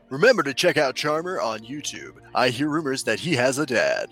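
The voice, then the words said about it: Radio announcer voice. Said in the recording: “can you read this in radio announcer voice?”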